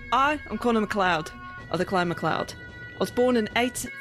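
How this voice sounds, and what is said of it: Put-on Scottish accent. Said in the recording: “the Scottish accent”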